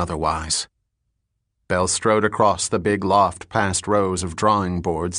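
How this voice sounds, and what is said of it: Usual voice. Nothing is said of it.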